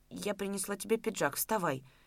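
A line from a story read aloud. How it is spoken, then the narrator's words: Barely audible whisper. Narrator (Russian): Чуть слышно прошептала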